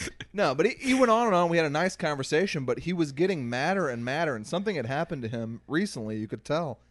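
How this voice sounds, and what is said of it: Usual voice. Nothing is said of it.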